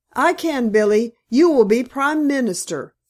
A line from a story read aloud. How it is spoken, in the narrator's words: flashed out Miss Greeby